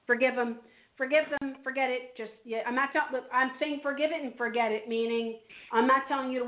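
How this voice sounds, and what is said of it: Strained, fading voice. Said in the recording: “When I read mediumship, I lose my voice. I'm so very sorry. I hope you can hear me.”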